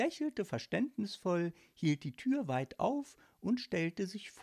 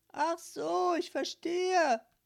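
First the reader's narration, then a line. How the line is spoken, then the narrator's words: Croaking lady. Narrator (German): krächzte die Dame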